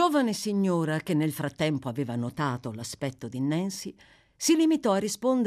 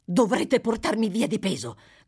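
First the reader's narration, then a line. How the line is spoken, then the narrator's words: Furious shout. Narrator (Italian): gridò Nancy infuriata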